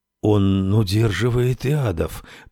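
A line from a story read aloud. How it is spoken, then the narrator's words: Whisper. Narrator (Russian): прошептал Джо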